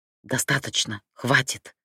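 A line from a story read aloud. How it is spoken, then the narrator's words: Hissing. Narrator (Russian): прошипела Фатима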